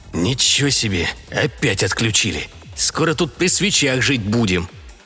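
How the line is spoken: Grumbling. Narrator (Russian): проворчал Юрий

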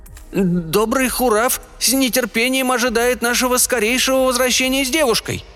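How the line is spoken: Trembling voice. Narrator (Russian): дрожащим голосом произнес Симбан

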